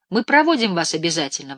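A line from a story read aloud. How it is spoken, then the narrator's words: Exclamation. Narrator (Russian): воскликнул я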